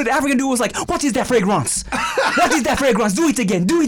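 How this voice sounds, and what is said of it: Put-on French accent. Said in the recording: “When you did the French accent”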